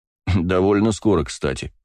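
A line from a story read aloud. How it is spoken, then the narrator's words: Snorting. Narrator (Russian): хмыкнул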